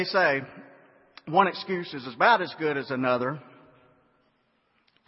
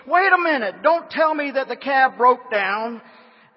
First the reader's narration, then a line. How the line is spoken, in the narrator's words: screeched